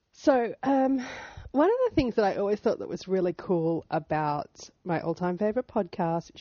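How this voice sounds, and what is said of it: Husky, hoarse voice. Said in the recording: “I have sexy voice today. I've been quite ill with a cold this last week with a lovely cough”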